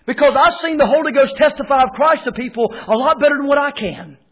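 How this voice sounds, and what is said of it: North Carolina accent. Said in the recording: “I've got a North Carolina accent.”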